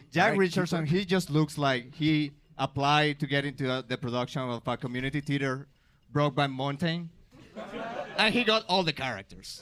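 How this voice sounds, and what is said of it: Non-native English accent. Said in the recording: “my accent? Like, I know I sound maybe dumb in English, but it's my second language”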